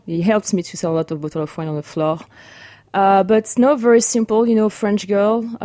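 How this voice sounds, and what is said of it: French accent speaking English. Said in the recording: “I'm French. I'm sure you're going to notice that right away. I'm not trying to hide my accent.”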